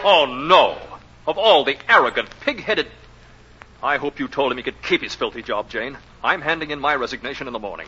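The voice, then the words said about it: Angry shouting. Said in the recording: “Stop shouting”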